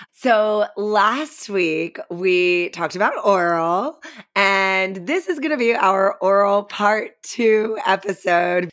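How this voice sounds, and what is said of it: Rough, worn-out speaking voice. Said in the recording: “excuse my voice. So you've heard it before. You know, my voice gets really bad when I party.”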